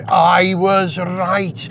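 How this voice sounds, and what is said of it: Put-on Welsh accent. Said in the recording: “I should say that with a Welsh accent, shouldn't I?”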